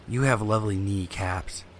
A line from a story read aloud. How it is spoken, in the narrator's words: whispers